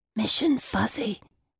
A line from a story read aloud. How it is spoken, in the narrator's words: I whispered